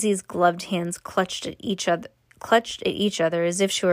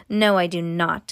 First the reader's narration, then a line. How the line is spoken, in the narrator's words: snapped Miss Mavius